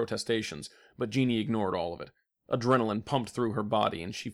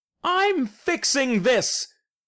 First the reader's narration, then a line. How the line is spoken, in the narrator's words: Jeannie shouted